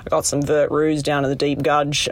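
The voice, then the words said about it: Laconic put-on Australian accent. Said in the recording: “the sort of like laconic Australian accent”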